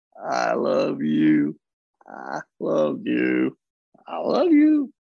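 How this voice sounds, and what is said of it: Southern accent. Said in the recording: “you say them in a Southern accent”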